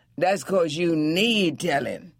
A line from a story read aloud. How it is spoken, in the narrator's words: he rejoined hotly